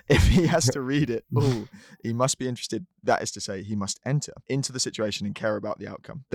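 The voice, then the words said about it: Put-on American accent reading. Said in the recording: “try do it in an American accent”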